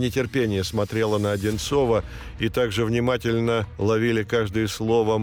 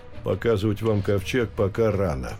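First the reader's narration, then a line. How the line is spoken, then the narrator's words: Calm. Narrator (Russian): спокойно сказал Одинцов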